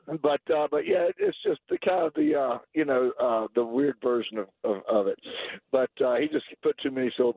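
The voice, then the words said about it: Losing voice, slightly hoarse. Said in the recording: “I'm losing my voice a little bit today”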